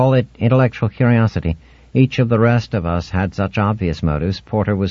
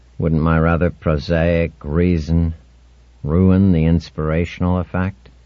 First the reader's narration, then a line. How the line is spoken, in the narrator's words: He said dryly